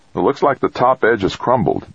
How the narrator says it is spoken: Dex said

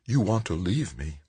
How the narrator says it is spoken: his mother said, her voice low, bitter

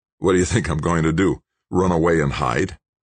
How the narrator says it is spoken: Tucker snorted disdainfully

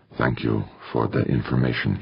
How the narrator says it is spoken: he said in a near whisper

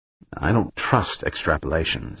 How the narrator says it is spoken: Dan muttered

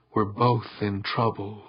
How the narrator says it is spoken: said, in a near whisper

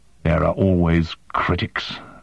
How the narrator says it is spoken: Zilla muttered

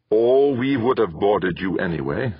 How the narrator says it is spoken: said Valker

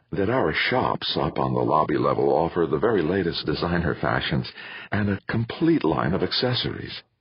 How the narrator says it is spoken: murmured the assistant manager

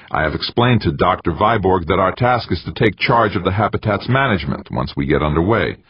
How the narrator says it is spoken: Morgenthau, who said hastily

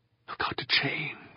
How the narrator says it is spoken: Alex murmured

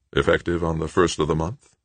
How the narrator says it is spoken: Rashid asked

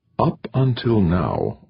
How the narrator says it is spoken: Overmeyer said softly

